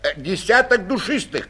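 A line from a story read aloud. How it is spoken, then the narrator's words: Shout. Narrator (Russian): крикнул Шпик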